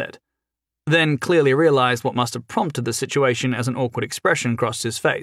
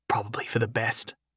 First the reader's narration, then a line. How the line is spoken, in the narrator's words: Jason confided quietly in Sophie